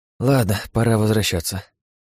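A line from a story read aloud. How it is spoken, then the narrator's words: Weary sigh. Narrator (Russian): устало вздохнув, сказал я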